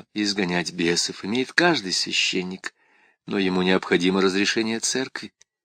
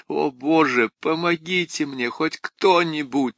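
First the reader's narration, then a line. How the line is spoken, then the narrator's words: Sobbing. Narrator (Russian): разрыдалась Крис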